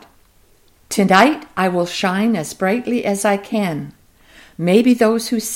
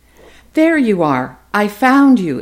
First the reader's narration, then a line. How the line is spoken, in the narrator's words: exclaimed a young woman as she rushed